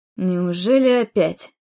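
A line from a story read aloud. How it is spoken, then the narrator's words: Angry exhale. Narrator (Russian): Выдохнул сердито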